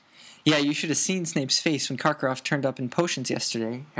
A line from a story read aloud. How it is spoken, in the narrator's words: Harry said quickly